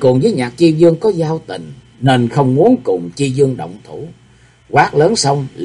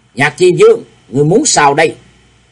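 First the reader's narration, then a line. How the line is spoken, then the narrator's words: Loud shout. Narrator (Vietnamese): Đồng Diệu cũng quát lớn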